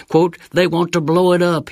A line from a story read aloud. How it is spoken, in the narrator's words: he squealed